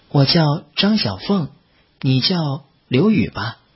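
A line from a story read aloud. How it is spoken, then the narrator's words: Faint smile. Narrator (Chinese): 淡淡的笑了笑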